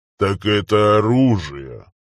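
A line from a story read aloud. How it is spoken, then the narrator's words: Father, lazily surprised. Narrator (Russian): лениво удивился отец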